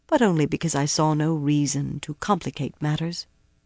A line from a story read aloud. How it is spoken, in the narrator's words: Cadswain said quietly